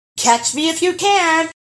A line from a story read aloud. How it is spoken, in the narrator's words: he called out